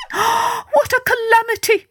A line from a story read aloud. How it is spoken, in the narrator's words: she cried